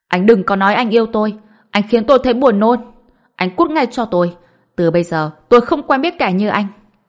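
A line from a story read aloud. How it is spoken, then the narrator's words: Disgusted loud shouting. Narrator (Vietnamese): Lý Dài Dào, trên mặt ngập tràn sự chán ghét, hét to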